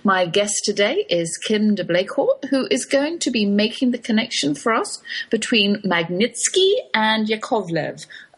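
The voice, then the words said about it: English East London accent. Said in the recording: “I come to you with an English accent ... I do come from very far away East London”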